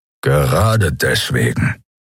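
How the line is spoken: Growled. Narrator (German): knurrte Keru

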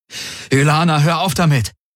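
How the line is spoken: Exclaimed. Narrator (German): rief er aus

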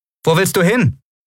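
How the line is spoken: Calling out. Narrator (German): rief Lien

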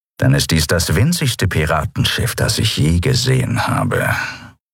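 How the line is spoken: Grumbling. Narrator (German): brummte Chasu

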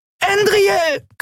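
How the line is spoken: Shriek. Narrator (German): kreischte Nelen

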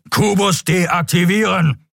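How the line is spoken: Thunderous booming voice. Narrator (German): donnerte der schwarze Skria

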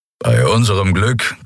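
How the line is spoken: Growled from behind. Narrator (German): knurrte Kero hinter ihnen

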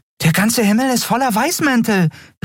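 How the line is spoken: Exclaimed. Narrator (German): rief Nelan aus

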